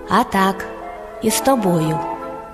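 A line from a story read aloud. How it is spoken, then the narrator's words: Calm hedgehog. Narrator (Ukrainian): А їжак спокійно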